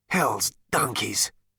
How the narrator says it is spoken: muttered Zaphod

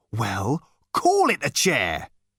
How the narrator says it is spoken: he said testily

